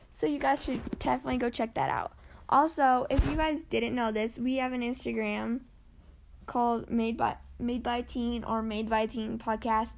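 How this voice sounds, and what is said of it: Strained, fading voice. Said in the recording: “My voice is going.”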